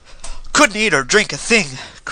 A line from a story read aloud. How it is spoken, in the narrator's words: cried the other